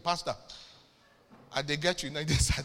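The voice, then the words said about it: Put-on Nigerian accent. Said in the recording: “it wasn't an American accent. It was Nigerian.”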